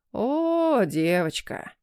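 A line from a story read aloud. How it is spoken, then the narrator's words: Sing-song drawl, tongue-click, sigh. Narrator (Russian): нараспев протянул он и, прицикнув языком, вздохнул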